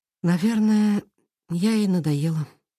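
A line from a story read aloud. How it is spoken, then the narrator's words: Sad sigh. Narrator (Russian): печально вздохнула она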